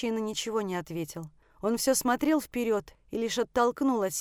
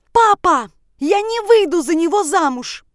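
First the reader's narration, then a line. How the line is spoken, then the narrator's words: Shouted. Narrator (Russian): крикнула я отцу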